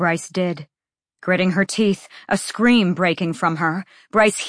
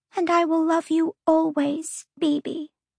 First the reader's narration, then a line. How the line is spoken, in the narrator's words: the fire sprite breathed